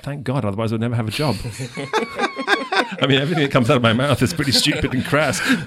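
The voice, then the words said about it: English accent. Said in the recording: “your accents ... I've got an English accent ... the dash of English”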